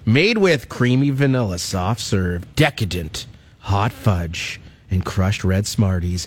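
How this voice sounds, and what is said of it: Sultry reading voice. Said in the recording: “I like to read that in my sultry voice.”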